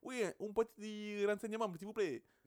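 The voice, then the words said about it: Put-on Italian accent. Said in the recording (French): “C'est quel accent? ... Italien.”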